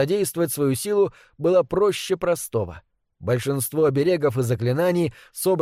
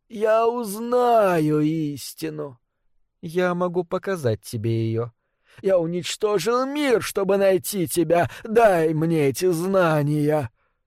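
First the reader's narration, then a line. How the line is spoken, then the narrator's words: Tender, smiling. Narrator (Russian): Лермента ласково улыбнулась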